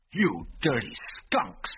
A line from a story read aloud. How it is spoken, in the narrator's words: he snarled